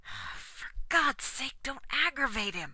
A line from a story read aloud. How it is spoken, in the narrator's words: whispered Tommy to Dodd